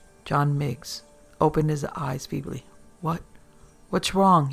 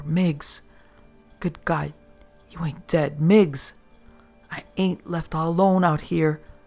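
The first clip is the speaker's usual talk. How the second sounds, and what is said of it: Cracked whisper. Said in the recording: “The voice was a cracked whisper.”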